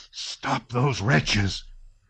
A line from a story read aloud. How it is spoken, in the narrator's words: gasped Kutuzov to the regimental commander